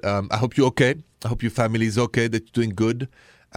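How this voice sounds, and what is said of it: Thick French accent. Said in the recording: “with my French thick accent.”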